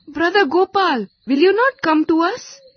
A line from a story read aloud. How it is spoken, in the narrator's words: called out Gopal many times